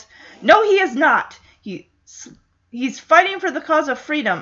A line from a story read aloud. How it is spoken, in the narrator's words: Kennedy yells